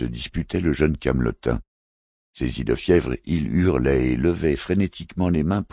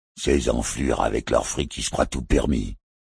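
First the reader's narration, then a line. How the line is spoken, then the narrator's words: Male growl. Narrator (French): gronda une voix masculine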